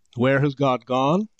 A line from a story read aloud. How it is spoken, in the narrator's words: he cried